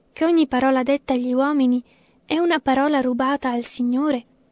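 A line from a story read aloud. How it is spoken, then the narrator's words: Sighing. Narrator (Italian): sospirava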